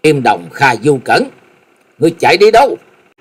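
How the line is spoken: Loud shout. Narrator (Vietnamese): Hắc Y La Sát đệ nhị hét lớn

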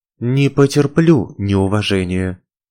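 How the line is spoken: Calm. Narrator (Russian): спокойно сообщила я

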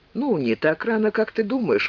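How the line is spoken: Gloomy reply. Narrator (Russian): мрачно ответил Филипп

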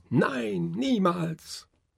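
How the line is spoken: Loud shouting. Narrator (German): schrien sehr

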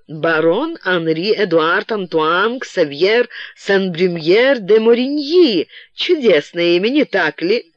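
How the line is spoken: Almost giggling. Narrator (Russian): Она чуть ли не хихикала

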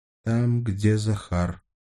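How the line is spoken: Muffled reply. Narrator (Russian): глухо ответила Сашка

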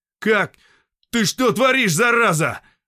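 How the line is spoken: Shouting. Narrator (Russian): закричал сталкер

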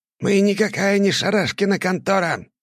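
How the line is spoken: Muffled scream. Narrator (Russian): завопил китаец в повязке на все лицо

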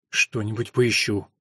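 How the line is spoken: Muttering. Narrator (Russian): пробормотала она

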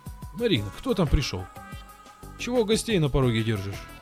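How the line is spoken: Cheerful tipsy father. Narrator (Russian): спросил веселым голосом уже слегка румяный отец Маришки с Лисом

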